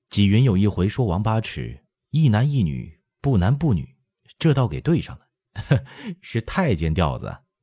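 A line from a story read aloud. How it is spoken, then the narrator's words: Laughing. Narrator (Chinese): 笑着说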